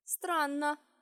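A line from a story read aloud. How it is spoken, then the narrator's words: Sudden snort. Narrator (Russian): отец внезапно хмыкнул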